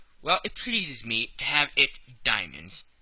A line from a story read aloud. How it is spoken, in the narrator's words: replied Colonel Proctor in an insolent tone